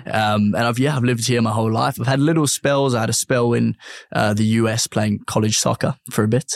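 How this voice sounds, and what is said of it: South African accent with English tinge. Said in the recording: “My family are born in Johannesburg, South Africa, which obviously you can probably hear a little bit of the accent. I've got a bit of a tinge of English as well.”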